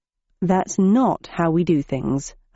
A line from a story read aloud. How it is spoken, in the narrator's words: I said in a quiet voice